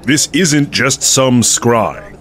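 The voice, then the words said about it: Lecturing, preachy tone. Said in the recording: “put on your lecture voice”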